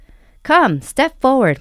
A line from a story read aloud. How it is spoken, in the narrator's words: Mama yells